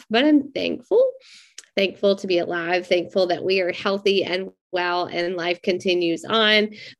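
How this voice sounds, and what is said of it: Sick-sounding voice, still coughing. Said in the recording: “if you can hear, tell from my voice, like we have been sick with the virus in our home for a couple of weeks and I'm still getting over it, still coughing”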